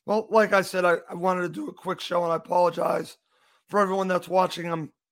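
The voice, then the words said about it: Hoarse voice. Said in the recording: “I am a little hoarse here”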